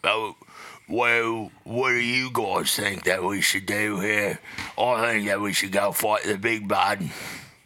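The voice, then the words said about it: Deeper voice, Cockney English accent. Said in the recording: “my go-to is I just talk a little bit deeper in my voice ... I also do the same thing in an English accent, which is like Cockney ... It's like a Jason Statham.”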